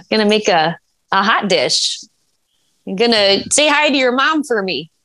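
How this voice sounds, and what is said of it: Exaggerated Midwestern accent. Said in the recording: “The Midwestern. That's a good accent... have a little bit of that kind of twang in your voice is not the same as the Southern twang... that was good there.”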